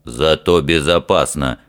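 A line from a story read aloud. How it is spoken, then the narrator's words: Snorting. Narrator (Russian): хмыкнул Фример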